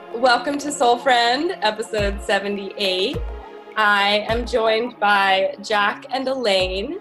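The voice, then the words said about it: Voice affected by a cold. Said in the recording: “I have a cold, so my voice is a little bit sad”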